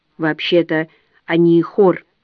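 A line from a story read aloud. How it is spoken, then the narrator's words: Plain. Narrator (Russian): говорит Белый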